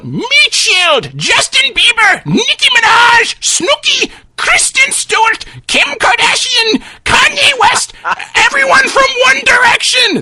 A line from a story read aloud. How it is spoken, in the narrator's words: the old man, who screams out